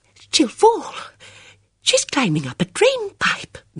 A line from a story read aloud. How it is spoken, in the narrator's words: Miss Marple exclaimed